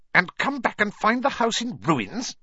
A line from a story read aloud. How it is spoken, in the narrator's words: she snarled